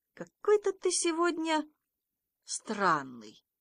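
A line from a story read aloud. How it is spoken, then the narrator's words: Calm teacher. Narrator (Russian): учитель спокойно так говорит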